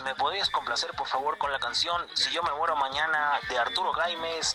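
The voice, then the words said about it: Radio announcer-style voice. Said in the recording (Spanish): “este hasta tiene voz de locutor”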